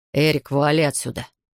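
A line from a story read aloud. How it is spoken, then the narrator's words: Bark. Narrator (Russian): рявкнул Джефф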